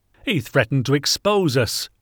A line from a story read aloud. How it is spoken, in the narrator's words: roared Boothby, cornered